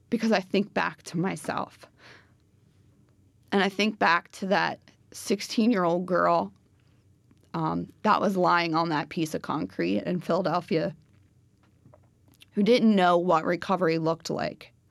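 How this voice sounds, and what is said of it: Choked up, emotional voice. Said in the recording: “Sorry, I'm getting choked up”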